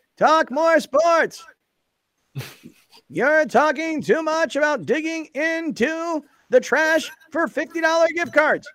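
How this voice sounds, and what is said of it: Imitates another person's voice. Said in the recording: “my Joe Tatino impression”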